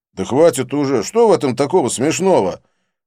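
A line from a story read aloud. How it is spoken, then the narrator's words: Pleading group wailing. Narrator (Russian): Они завопили, умоляя меня не продолжать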